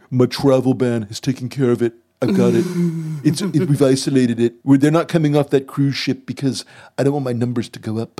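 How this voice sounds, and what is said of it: Donald Trump impression. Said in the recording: “the only Trump impersonation of this episode ... I'm trying to do a Trump impersonation”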